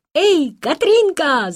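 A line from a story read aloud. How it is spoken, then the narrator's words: Shouting in unison. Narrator (Russian): закричали они в один голос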